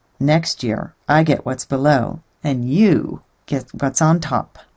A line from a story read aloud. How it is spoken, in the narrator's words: Realizing he'd been tricked, the groundhog huffed and grumbled